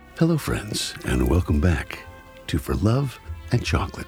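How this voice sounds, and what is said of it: Smooth announcer-style radio voice. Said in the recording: “This is ... using his radio voice.”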